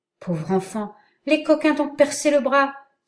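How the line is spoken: Alarmed exclamation. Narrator (French): s'écria le chasseur en apercevant une large blessure

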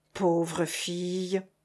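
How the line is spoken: Comical sigh. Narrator (French): soupira drôlement Nina

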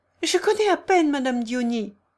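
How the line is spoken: Brisk retort. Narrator (French): répliqua vivement le jeune Deslandes

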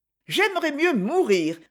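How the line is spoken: Contemptuous exclamation. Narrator (French): s'écria-t-elle en le toisant avec mépris

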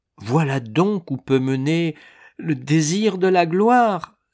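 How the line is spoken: Exclaimed. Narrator (French): s'écria-t-elle

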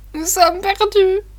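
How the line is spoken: Bursting into sobs. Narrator (French): dit Sophie en éclatant en sanglots

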